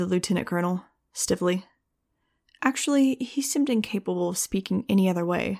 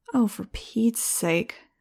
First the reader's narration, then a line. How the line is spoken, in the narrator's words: muttered